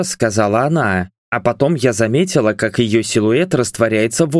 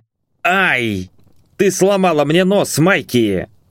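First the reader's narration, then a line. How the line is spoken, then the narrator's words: Growling. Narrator (Russian): рыкнул Брайан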